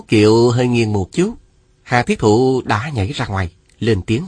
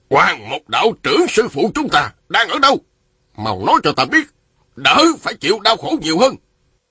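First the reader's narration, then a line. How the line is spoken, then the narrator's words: Shouting. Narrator (Vietnamese): Một đạo nhân râu dài quát lên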